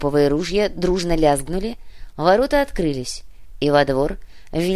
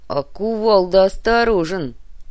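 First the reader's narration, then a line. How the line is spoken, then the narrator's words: Through gritted teeth. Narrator (Russian): процедил Напильник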